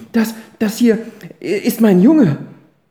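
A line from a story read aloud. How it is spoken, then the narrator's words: Stammering. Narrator (German): stammelte sie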